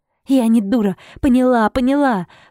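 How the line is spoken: Startled cry while shaken. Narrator (Russian): вскрикнула, когда он вцепился мне в запястье и тряхнул

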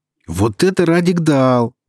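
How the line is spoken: Shouting. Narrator (Russian): прокричал Эльнар

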